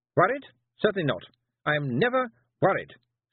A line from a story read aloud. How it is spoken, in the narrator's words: snapped Miss Tick